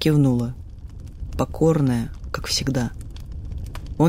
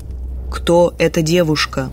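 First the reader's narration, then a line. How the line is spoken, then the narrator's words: Strange low booming voice. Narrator (Russian): спросил отец не своим низким и гулким голосом, звучащим теперь почти красиво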